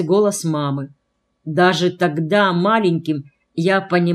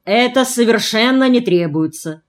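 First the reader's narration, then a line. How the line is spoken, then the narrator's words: Deep bass voice. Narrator (Russian): пробасил отец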